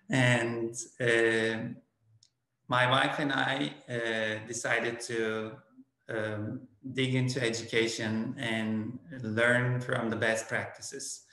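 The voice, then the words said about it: Turkish accent, non-native English. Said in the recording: “I am originally from Turkey ... English is my second language. You may understand from my accent.”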